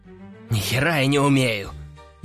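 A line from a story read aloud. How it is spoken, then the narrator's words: Angry gruff grumble. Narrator (Russian): зло буркнул мужик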